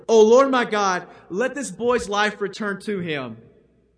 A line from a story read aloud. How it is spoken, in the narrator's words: he cried out to the Lord